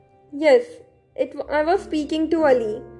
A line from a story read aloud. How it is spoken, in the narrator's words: he said